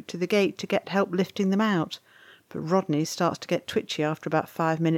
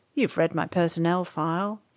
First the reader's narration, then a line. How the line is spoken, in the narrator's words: he drawls